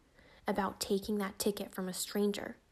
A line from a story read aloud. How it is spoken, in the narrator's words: hissed Kat